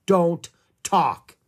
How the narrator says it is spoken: he spoke sternly

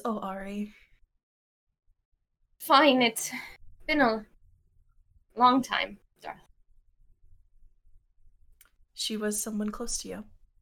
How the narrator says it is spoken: Gris lets out a sigh, and just says

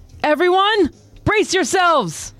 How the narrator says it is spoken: she yells to her crew

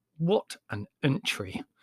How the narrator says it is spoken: said Larry bitterly

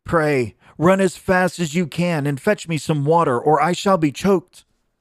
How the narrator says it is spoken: Then she was in a great fright, and cried out to Chanticleer

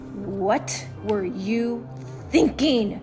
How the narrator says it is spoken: She snarls

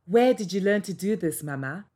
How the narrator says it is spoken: asked Olutle

